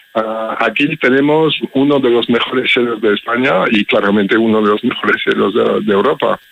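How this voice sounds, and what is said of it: Belgian accent in Spanish. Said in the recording (Spanish): “lo notas con mi acento, ¿no? Soy extranjero, soy belga.”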